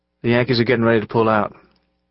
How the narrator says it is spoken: Will told them in a quiet voice

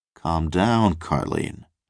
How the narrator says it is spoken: said

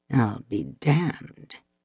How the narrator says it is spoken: Nico muttered

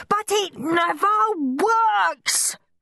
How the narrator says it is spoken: screamed Henry

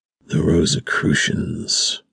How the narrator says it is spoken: Max whispered

